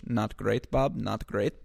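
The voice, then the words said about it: Brief put-on comic accent. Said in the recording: “I don't know why that's the accent I went with.”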